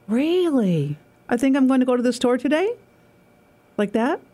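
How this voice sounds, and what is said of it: Upstate New York accent, question-like rising intonation. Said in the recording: “the accent for upstate New York is not pleasant ... It's always like you're asking a question, no matter what.”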